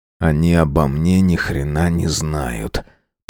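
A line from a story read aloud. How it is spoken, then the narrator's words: Muttered. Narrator (Russian): пробормотал я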